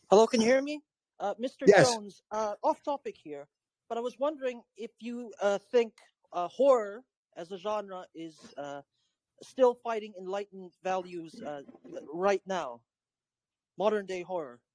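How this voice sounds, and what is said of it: Speaks with a noticeable accent. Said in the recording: “Sorry, my horror. Accent.”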